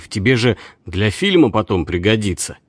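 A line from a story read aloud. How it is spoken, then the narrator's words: Calm. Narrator (Russian): Он говорил спокойно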